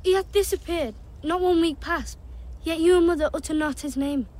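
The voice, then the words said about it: Thick northern English accent. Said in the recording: “they are from the north of England, which is an area with a very thick accent.”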